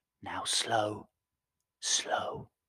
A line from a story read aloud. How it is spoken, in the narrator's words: whispered the captain